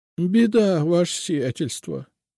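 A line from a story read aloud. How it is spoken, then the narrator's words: Sobbing woman. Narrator (Russian): снова всхлипнула женщина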